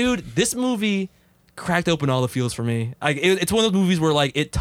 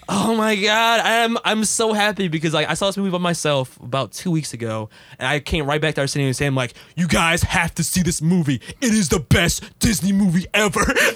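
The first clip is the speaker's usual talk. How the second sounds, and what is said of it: Excited, half-crying voice. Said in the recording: “In that exact same voice. ... Not really exaggerated. ... That's my excited, I'm like half crying voice.”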